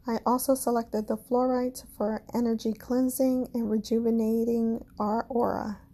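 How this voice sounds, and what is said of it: Caribbean accent. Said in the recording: “my Caribbean accent and pronunciation is a dangerous combination”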